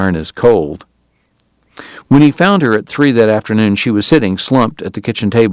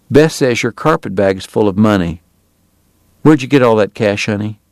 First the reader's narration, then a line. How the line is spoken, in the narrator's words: he said quietly